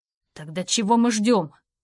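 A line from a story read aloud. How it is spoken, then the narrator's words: Growl. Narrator (Russian): Из горла Роу вырвалось такое рычание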